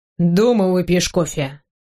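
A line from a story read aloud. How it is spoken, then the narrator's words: Stern. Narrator (Russian): говорю ей строго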